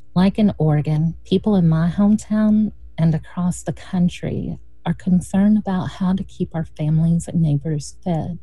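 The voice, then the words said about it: Eastern Kentucky rural accent. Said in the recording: “If you think you hear an accent, well, you aren't wrong. Before starting with RLP, I lived and organized in Kentucky. I was raised in a small rural community in eastern Kentucky”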